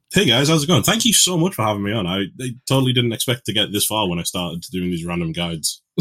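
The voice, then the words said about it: Mixed east and west UK accent. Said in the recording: “you're from the UK, but I would hope that people could hear the accent and guess ... my accent's a bit of a mess because it's half from like the east side of the UK and half from the west side of the UK”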